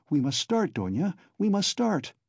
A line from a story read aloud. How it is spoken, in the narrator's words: her mother cried in a flutter